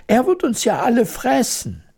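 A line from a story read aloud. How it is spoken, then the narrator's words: Horrified shout. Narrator (German): schrie die Königin entsetzt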